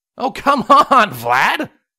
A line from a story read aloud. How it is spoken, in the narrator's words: Longshot laughed